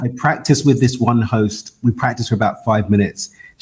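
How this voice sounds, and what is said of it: East London British accent. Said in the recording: “everybody's going to notice your accent ... I'm born and raised in East London in the UK.”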